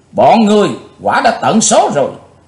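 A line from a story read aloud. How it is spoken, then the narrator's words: Loud shout. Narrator (Vietnamese): Chàng thét to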